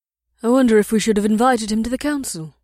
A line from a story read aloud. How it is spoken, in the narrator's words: Nyleme said in her mild voice